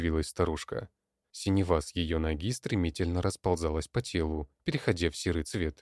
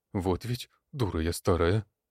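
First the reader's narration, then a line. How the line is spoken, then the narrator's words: Hoarse wheeze. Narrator (Russian): хрипела она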